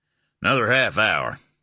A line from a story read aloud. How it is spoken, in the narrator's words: Jolly answered, his speech still the slightest bit slurred